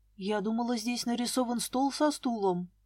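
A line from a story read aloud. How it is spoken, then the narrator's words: Mutter. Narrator (Russian): пробормотала я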